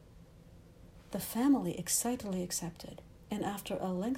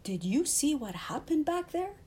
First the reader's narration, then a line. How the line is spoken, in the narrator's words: Alberto exclaimed